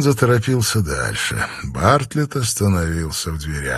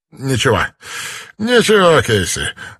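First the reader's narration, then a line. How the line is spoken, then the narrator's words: Forced smile. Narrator (Russian): выдавил из себя улыбку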